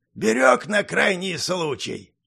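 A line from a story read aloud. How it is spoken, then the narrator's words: Old man, plain. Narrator (Russian): любовно поглаживая амулет, ответил старик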